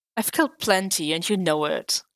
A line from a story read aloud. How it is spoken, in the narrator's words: Clint scoffed